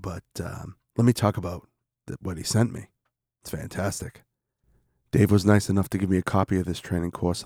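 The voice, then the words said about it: Sick, changed-sounding voice. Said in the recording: “my voice has changed in this segment, because I'm now sick.”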